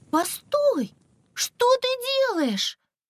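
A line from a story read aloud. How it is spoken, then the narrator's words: Exclamation. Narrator (Russian): Воскликнула Искра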